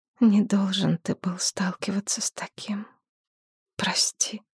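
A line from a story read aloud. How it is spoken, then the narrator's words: Quiet. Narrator (Russian): тихо проговорила Шепсет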